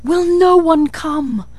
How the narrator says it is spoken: cried

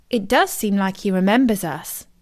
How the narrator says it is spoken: said Daisy

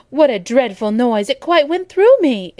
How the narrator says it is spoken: exclaimed Abbott

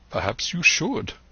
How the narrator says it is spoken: replied the doctor

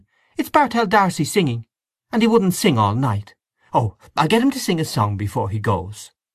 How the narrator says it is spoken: exclaimed Mary Jane

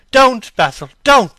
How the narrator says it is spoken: he cried

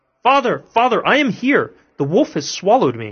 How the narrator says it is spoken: Tom heard all this and cried out

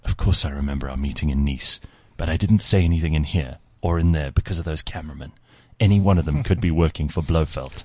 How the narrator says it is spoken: in a hushed voice said

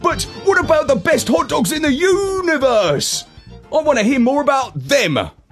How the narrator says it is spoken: I barked

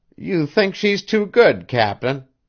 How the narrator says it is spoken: sneered Mrs

